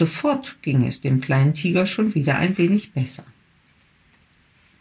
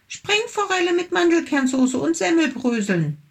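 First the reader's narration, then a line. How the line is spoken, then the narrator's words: Small tiger calling. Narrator (German): rief der kleine Tiger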